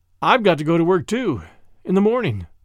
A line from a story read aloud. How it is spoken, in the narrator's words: he said